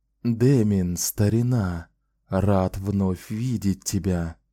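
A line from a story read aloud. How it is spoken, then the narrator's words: Soft. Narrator (Russian): мягко сказал Рау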